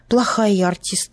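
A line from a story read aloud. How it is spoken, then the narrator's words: Sighing. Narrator (Russian): вздохнула Даша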